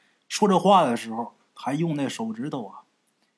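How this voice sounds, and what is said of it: Usual voice. Nothing is said of it.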